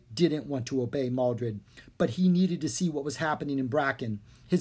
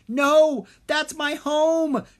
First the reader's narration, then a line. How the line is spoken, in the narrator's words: Drake yelled